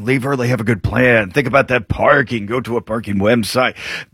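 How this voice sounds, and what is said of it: Sounds like an old man's commercial. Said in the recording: “You sound like an old man right now. You sound like the commercial.”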